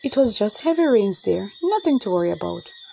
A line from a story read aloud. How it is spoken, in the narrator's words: her mother said calmly